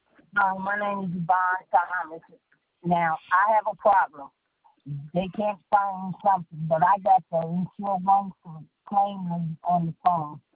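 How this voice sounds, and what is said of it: Muffled, hard-to-hear phone voice. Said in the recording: “I'm having a hard time hearing you sound very muffled, so I'm not catching anything that you're saying”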